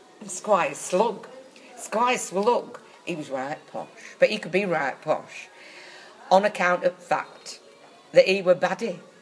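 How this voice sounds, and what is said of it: Put-on Northern English accent. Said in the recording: “Did you do it in Northern English accent? ... Of course I did it in Northern English.”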